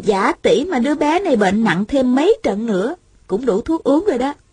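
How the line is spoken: Smiling. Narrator (Vietnamese): Thanh Thanh mỉm cười nói

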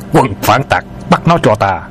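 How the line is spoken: Shout. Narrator (Vietnamese): Tiếng quát

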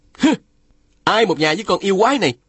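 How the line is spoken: Shouting. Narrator (Vietnamese): Phùng Bất Phá quát lên

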